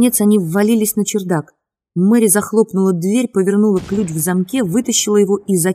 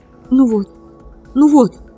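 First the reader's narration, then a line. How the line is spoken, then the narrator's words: Sobbing. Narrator (Russian): Всхлипывая, она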